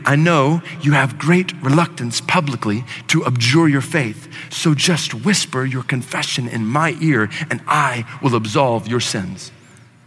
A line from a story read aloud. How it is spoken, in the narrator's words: one of whom bent down, whispered in his ear